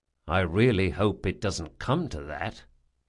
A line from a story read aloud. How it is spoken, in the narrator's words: he said quietly